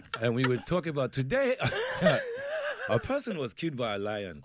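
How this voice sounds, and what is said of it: Put-on South African Soweto accent. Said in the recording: “his Soweto accent. So we begun to talk like this”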